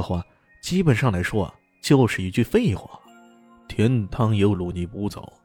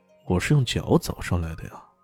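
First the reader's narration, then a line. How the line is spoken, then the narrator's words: Calm, indifferent. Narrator (Chinese): 李炫淡淡的说道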